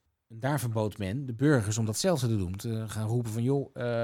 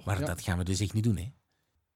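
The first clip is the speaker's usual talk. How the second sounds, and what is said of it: Put-on Flemish accent. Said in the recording (Dutch): “Jij mag dit doen, met een Vlaams accent.”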